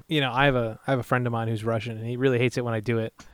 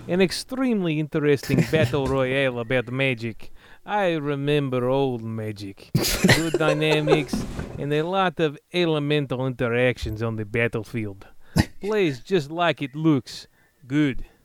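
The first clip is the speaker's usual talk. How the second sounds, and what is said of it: Put-on Russian accent. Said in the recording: “you got a Russian accent for me?”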